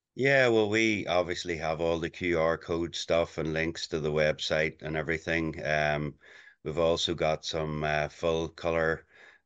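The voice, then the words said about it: Memorable non-local accent. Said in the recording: “your accent, which is definitely going to be memorable for a lot of people”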